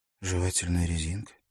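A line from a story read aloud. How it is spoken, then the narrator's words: Thoughtful questioning. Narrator (Russian): задумчиво переспросила Лаура Миттет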